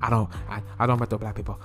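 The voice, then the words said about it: Put-on accent. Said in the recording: “I'm fucked up for using that accent.”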